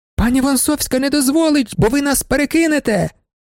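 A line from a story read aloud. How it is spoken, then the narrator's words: Young lady shouting. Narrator (Ukrainian): закричала панна Феліція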